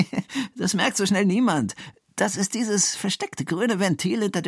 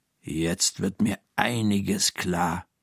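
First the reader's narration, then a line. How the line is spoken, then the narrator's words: Murmured. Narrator (German): murmelt Frau Krüger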